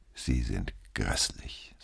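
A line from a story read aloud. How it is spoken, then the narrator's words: Said softly. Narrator (German): sagte sie leise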